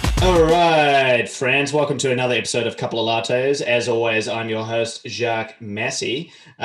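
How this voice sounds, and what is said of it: New Zealand accent. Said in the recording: “Mind my Kiwi accent.”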